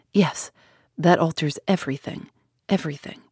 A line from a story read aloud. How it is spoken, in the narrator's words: still murmuring to himself